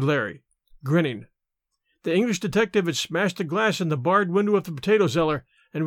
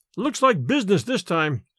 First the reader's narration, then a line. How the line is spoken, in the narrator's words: exclaimed Larry